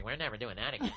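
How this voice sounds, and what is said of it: Imitates another person's voice. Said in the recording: “that was my Karen impression ... That was uncanny.”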